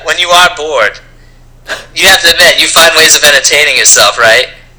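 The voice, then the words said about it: Noticeably strong regional accent. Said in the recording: “Your accent is getting so much stronger.”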